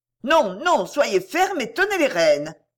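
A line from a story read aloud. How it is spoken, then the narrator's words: Shouting. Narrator (French): cria Mistress Arbery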